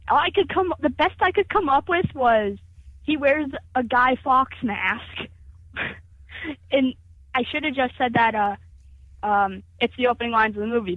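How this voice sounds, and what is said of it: American accent. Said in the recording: “It's her American accent.”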